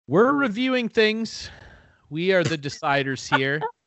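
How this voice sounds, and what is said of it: Nervous, snotty young-sounding impersonation. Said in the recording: “That sounded like a nervous, snotty 18-year-old me in front of a microphone for the first time ... doing an impromptu impersonation ... shitting their pants”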